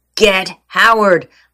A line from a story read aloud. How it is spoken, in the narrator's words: Linda hollered